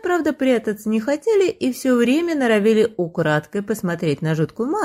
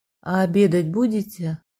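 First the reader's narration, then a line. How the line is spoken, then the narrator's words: Quiet question. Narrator (Russian): тихо спросил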